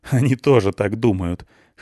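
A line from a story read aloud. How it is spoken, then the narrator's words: Short laugh. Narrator (Russian): хохотнул он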